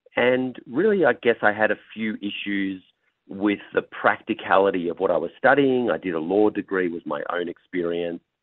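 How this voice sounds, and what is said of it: Australian accent. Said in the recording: “The accent does sound like it's a little bit further away ... I'm originally from Australia”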